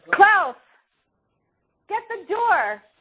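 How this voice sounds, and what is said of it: Yelling loudly. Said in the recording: “sorry for yelling.”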